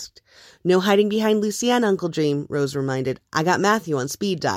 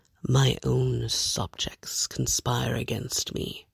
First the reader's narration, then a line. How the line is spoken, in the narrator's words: Murphy grumbled